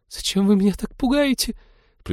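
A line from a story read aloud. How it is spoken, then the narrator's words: Squeaked. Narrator (Russian): пропищала она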